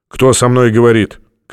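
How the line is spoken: Shouting over noise. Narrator (Russian): крикнул Стратмор, стараясь перекрыть шум

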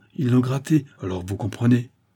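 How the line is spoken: Exclaimed. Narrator (French): s'écria Frimaud

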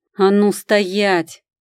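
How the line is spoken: Bark. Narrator (Russian): рявкнула

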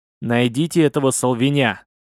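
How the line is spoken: Angry irritated merchant. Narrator (Russian): зло прервал купец, раздраженный непонятливостью моряка

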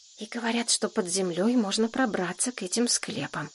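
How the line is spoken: Whisper. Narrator (Russian): шепнула Шурке Женька

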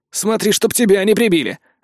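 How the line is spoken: Snapping retort. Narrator (Russian): огрызнулся Гор

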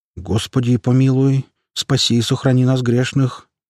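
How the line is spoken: Slightly trembling voice. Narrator (Russian): произнес отец Дионисий слегка дрожащим голосом

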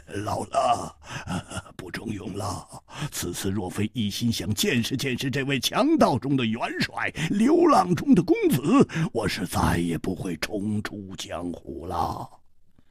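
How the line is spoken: Laughing. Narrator (Chinese): 秃鹰摇头笑

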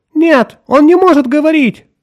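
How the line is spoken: Crying out. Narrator (Russian): вскрикнула Люсинда

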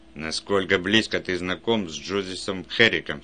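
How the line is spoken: Plain. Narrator (Russian): спросил он

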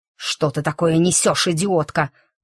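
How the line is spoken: Hissed, voice kept low. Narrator (Russian): зашипела она, старательно умеряя голос

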